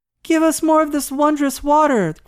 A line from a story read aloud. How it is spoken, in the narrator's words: cried they, eagerly